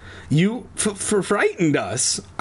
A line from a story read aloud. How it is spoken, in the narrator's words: I stammered, finally finding my voice